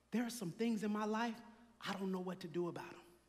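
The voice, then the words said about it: Whispering. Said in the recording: “I'm going to whisper something to you.”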